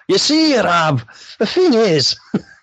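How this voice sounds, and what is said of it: Glaswegian Govan accent. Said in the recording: “she's got to have a Govan accent”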